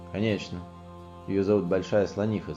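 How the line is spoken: Animals shouting together. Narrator (Russian): закричали звери

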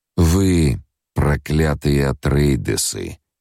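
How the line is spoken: Through gritted teeth. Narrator (Russian): процедил сквозь зубы

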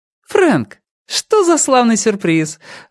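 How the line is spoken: Exclamation. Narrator (Russian): воскликнула

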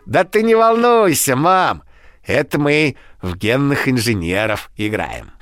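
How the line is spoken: Cheerful. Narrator (Russian): Алина весело ответила

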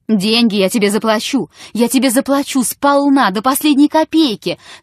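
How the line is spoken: Shouting. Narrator (Russian): кричал Чертопханов

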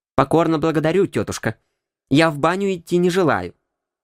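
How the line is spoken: Cold, disgusted. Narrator (Russian): сказал я холодно и даже с примесью годливости в голосе

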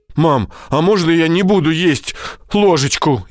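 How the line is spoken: Frightened. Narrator (Russian): испуганно отвечает Мирон

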